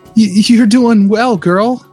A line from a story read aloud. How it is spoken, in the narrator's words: I groaned